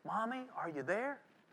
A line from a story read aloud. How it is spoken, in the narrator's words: the young lady became afraid up there all alone, and she called out softly